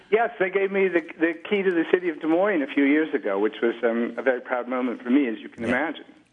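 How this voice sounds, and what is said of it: Iowa accent with English twang. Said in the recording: “a little bit less of the Iowa twang, a little more of the English twang.”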